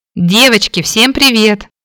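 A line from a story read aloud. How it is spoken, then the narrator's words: Loud, pleased shout. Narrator (Russian): прокричала на весь дом, довольно улыбаясь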